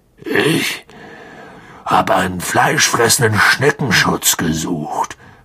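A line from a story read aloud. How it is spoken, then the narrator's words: Gruff grumble. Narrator (German): brummte Hagrid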